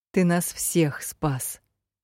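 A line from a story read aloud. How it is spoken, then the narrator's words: Quiet, barely restrained. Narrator (Russian): Тихо вторила я, едва сдерживаясь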